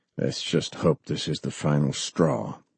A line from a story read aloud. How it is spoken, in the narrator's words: he said coldly, his tension obvious to all